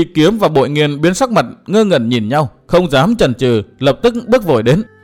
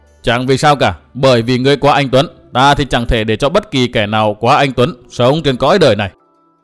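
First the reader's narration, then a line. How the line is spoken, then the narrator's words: Cold. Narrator (Vietnamese): Phác Lập Nhân lạnh lùng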